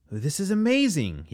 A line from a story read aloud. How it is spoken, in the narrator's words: exclaimed